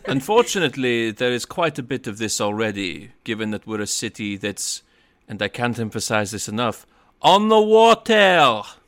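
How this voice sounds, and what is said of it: Terrible put-on French accent. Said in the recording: “this accent from. It's the terrible French accent ... the SpongeBob French narrator”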